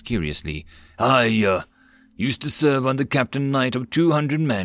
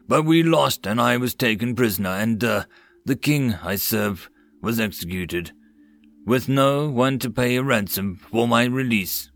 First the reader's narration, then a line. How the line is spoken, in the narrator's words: Gavin sighed